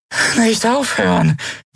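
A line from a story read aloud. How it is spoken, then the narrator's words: Weak, exhausted croak. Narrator (German): krächzte sie matt und ausgezehrt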